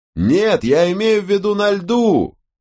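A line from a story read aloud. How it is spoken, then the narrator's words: Shouted. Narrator (Russian): прокричал Ирвинг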